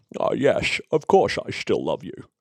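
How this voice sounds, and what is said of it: James Bond impression. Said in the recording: “That's very James Bond ... my favourite impression that you do”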